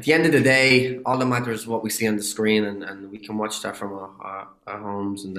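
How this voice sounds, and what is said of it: Irish accent. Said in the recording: “I get to use my own accent... that identity of being an Irish”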